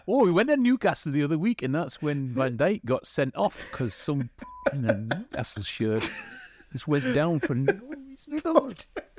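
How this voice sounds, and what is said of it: Put-on Geordie accent. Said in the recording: “your take on a Geordie accent ... I have no idea what the f*** you just said ... I have no idea what that was, but it was amazing.”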